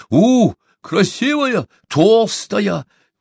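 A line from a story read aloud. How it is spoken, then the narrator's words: Eager ingratiating exclamation. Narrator (Russian): воскликнул Чумбока, желая угодить шаману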